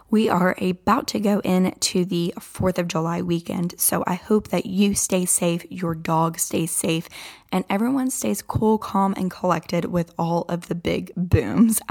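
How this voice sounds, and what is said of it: Scratchy, hoarse voice. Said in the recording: “my voice is like scratchy and out right now”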